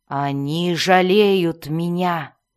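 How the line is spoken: Growled. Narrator (Russian): прорычал Белвар

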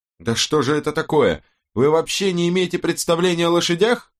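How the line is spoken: Shrill scolding. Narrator (Russian): Визгливо напустилась она на Страйка и Робин

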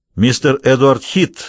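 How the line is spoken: Loud announcement. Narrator (Russian): громко произнес Мастерсон

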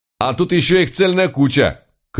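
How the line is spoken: Shout. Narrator (Russian): крикнул он

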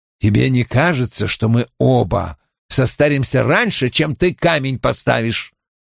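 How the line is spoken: Grumbling mutter. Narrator (Russian): пробурчал Том

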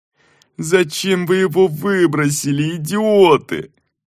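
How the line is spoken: Moaned. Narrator (Russian): простонал владелец логова

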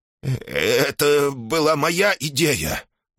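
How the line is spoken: Trembling old man's voice. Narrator (Russian): дрожащим голосом вставил старик

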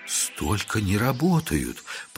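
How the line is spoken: Astonished mutter. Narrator (Russian): пробормотала пораженная древней техникой учительница

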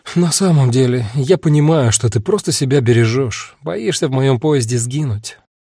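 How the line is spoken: Sighing. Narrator (Russian): вздохнула Агата

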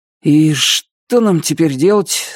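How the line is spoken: Uncertain question. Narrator (Russian): спросил Бубенчик, неуверенно

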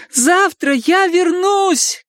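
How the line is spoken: Shout. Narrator (Russian): крикнула она

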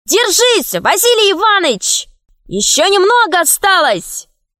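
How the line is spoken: Shouting. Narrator (Russian): кричали

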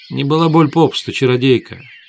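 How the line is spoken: Calm interruption. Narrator (Russian): спокойно оборвала Свету ведьма

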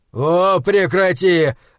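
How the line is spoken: Barked. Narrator (Russian): рявкнул он

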